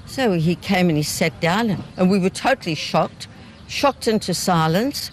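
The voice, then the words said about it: Elderly New Zealand accent. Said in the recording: “a group of elderly walkers who were booted off a bus in New Zealand ... If you couldn't quite catch the accent”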